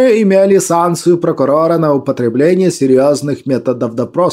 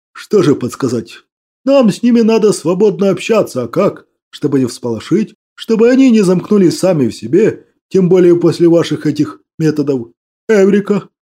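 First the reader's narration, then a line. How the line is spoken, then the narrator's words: Joyful exclamation. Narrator (Russian): радостно воскликнул Баняк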